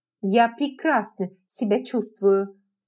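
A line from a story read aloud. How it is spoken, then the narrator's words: Sharp. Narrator (Russian): сказала резко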